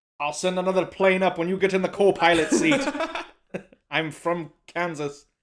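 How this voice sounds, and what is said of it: Irish-accented impression of an actor. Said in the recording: “He still has a little bit of that accent... he's Irish”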